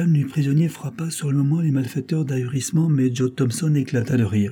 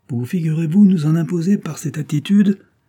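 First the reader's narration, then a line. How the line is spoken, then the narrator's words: Ironic exclamation. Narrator (French): s'écria-t-il ironiquement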